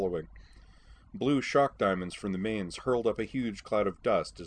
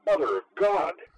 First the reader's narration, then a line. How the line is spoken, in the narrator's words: Sky Eye One blurted